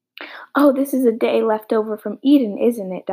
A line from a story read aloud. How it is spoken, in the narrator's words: Diana said